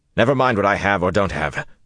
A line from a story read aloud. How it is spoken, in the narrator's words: Rand snapped